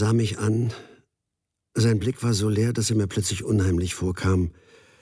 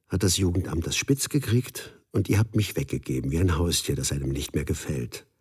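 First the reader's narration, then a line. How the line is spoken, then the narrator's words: Quiet. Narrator (German): sagte leise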